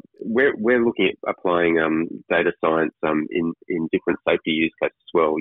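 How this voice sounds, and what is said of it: Strained, failing voice. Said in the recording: “I'm losing my voice. I've been talking too much of late.”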